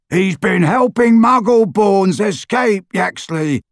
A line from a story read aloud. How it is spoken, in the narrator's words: Harry shouted